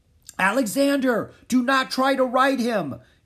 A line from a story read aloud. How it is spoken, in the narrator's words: King Philip yelled at the prince